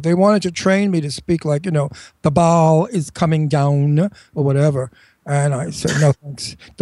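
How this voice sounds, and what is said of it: New York accent. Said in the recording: “I'm a native New Yorker, as you can hear. ... my New York accent.”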